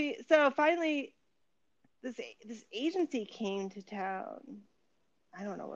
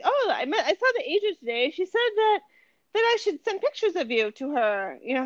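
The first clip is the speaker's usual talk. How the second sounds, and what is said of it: Put-on Turkish accent. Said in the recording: “that's my mom's Turkish accent”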